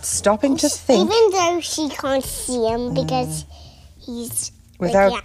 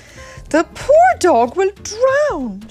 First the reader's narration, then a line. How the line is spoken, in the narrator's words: cried out with a frown